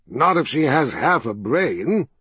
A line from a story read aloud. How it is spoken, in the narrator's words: Zed chuckled